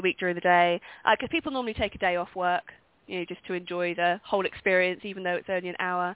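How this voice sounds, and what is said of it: Distinctive accent. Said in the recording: “we just love your accent, by the way. ... your accent is just like is probably the best one we've ever had on the show here.”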